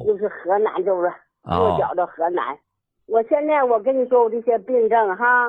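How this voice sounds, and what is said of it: Northeastern Chinese accent, not Henan. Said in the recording (Chinese): “口音不像河南人呐 ... 我是沈阳苏家屯的 ... 怪不得这口音不像”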